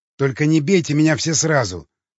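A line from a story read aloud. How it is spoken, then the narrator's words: Snapping ogre. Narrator (Russian): огрызнулся людоед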